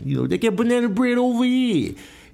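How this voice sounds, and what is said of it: Imitates a New York accent. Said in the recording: “She's from New York, so, you know, she got the accent.”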